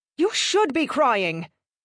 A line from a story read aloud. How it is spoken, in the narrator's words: Marty snapped